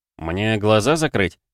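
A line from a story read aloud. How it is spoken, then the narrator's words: Snide question. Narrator (Russian): ехидно спросил Андрей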